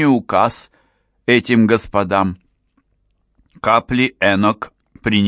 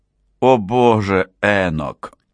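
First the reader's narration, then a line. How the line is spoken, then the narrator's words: Moaning. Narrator (Russian): застонала Анна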